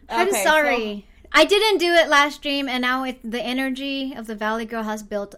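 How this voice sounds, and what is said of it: Usual voice. Nothing is said of it.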